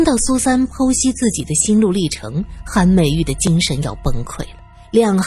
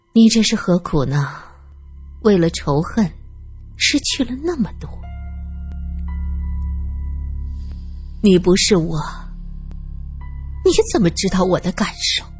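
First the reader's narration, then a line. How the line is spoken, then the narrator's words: Sighing. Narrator (Chinese): 苏三叹息着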